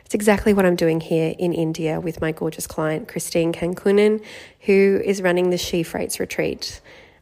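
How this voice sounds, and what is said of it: Voice fading, losing voice. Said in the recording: “Don't mind my voice just disappearing.”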